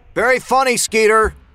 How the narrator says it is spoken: Kyle yelled into the night

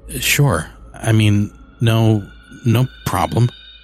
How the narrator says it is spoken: I stammered

